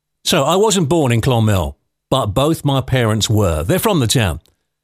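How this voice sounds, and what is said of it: London English accent. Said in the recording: “the dodgy accent ... I was born and brought up in London”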